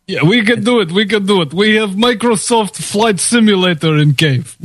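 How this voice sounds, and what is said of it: Put-on Russian-Arabic accent. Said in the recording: “I think it was like a Russian-Arabic accent.”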